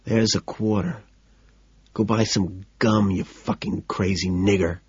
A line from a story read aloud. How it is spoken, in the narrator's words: Calmly, I whisper